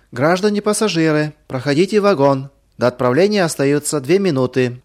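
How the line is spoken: Loud announcement. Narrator (Russian): проводница громко объявила

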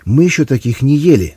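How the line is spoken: Exclaimed. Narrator (Russian): воскликнула Инна

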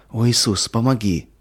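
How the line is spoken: Desperate pleading prayer. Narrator (Russian): взмолилась Катя

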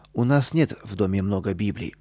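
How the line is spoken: Calm mother. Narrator (Russian): спокойно ответила мама

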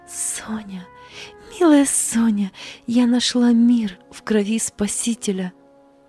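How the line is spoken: Tearful joyful whisper. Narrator (Russian): с сияющими сквозь слезы глазами прошептала

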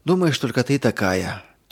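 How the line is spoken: Heavy sigh. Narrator (Russian): тяжело вздохнула Ирина

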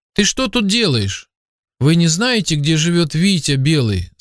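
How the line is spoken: Plain. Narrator (Russian): спросил Роман

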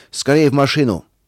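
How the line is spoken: Shouted. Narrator (Russian): крикнул атаман

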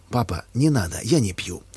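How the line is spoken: Calm but firm. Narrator (Russian): сказал Николай спокойно, но твердо

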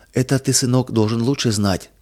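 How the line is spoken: Tender, gentle. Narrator (Russian): ласково сказала мама

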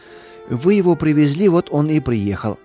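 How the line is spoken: Calm. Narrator (Russian): спокойно ответила жена

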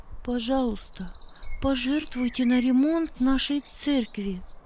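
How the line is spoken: Timid plea. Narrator (Russian): робко попросила Маргарита

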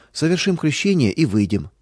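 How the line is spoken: Calm. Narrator (Russian): спокойно сказал

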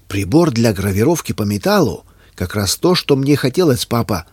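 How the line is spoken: Joyful exclamation. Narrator (Russian): радостно воскликнул Юстин

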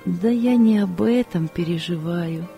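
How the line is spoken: Sad woman. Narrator (Russian): печально сказала женщина

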